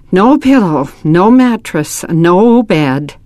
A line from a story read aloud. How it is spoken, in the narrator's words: Nils sighed